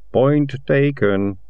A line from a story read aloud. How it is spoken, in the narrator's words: he said gloomily